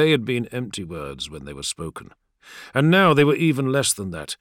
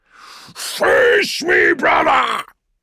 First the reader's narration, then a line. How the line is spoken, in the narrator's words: he roared, his mighty voice rising above the thunder of battle